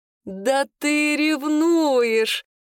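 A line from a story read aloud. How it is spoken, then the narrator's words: Loud laughter. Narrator (Russian): расхохотался Кируш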